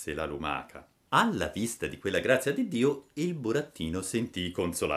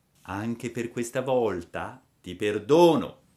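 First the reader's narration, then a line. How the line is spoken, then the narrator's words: Plain, fairy. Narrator (Italian): disse la fata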